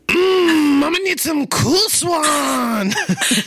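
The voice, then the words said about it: Imitates another person's voice. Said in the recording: “your best Chris Cat impression ... That was like a cross between Yoda and ... Chrissy”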